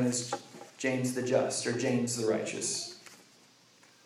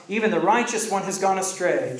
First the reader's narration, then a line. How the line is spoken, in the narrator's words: they called out